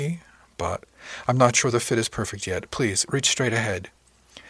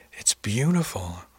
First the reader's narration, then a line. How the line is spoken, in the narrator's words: sighed